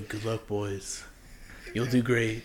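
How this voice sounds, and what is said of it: Imitates another person's voice. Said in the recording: “That was like the first time I've ever like actually tried to impersonate him.”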